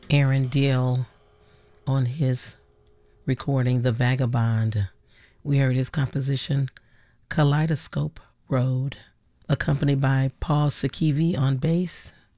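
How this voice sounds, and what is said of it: Raspy voice. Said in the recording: “I'm a little under the weather ... please excuse my raspy voice.”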